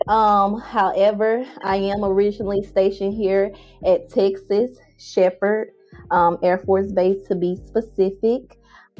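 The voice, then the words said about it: Southern US Mississippi accent. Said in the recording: “I'm originally from Mississippi, as you can tell with my accent, very country gal, Southern Belle.”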